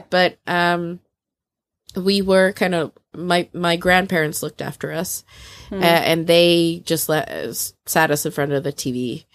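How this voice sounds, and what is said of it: American accent. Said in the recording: “I stole my American accent”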